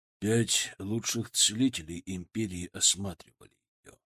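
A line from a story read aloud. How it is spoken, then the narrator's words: Quiet. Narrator (Russian): сказал он тихо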